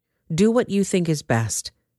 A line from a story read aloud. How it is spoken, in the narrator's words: the armor-bearer replied